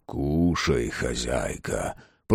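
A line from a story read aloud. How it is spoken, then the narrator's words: Dry-lipped whisper. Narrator (Russian): прошептал он пересохшими губами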